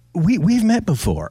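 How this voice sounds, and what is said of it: Imitates another person's voice. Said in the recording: “that's a good impression”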